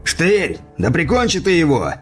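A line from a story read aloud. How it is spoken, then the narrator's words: Rough shout. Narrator (Russian): грубо крикнул один из налетчиков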